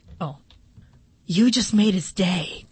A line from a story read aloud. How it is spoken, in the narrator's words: Colin whispered